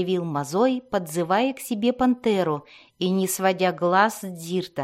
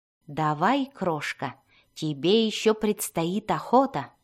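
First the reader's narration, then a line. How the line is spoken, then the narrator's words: Plain. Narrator (Russian): сказал он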